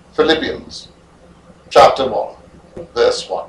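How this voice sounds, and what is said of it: Fake British accent, flowy reading. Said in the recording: “are you affecting a British accent? ... Why would you fake a British accent? ... very flowy and very eloquent and not even remotely conversational”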